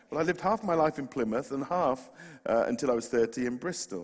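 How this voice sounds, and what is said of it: West Country English accent. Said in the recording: “I'm from the West Country ... we think you're this sort of posh chap from Oxford ... now and again, we hear this accent ... And so I'm West Country.”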